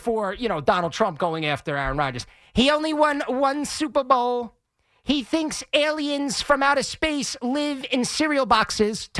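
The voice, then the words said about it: Poor Donald Trump impression. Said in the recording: “Terrible Trump impression”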